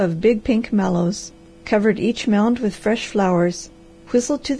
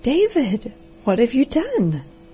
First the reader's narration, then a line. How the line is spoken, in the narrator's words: gasped the amazed girl